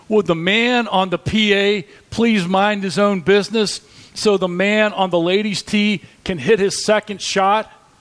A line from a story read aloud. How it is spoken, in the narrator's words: the golfer in frustration and he shouted